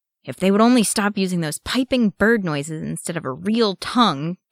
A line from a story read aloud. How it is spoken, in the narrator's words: Thorin growled